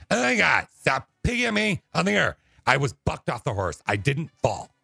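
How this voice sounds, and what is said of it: Exaggerated imitation of another person's voice. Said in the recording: “I'll do Alicia again ... with my impression, I exaggerate it”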